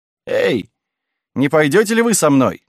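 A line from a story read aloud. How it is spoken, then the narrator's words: Shout. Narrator (Russian): крикнул он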